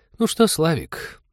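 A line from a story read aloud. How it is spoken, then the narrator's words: Honeyed voice, hidden fury. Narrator (Russian): Медовым голосом, за которым угадывалась тихая ярость, начал он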